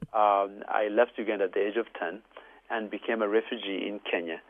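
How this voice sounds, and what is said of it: Ugandan English accent. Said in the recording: “I'm originally Ugandan, as you can tell from my beautiful accent.”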